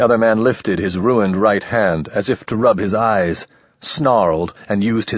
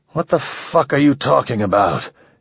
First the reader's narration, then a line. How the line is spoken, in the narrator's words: he demanded, his voice thick and sleep-drunk